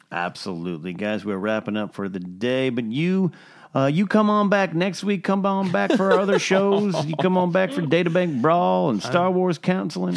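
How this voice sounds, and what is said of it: Put-on Southern drawl. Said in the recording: “Whiskey-infused Southern accent.”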